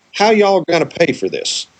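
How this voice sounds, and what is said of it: Southern US accent. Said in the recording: “pardon the Southern accent”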